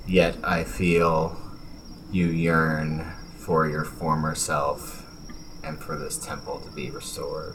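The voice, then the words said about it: Whispering. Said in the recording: “in a whispered voice,”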